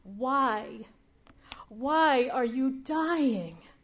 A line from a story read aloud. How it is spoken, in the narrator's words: Jesus wants to howl his grief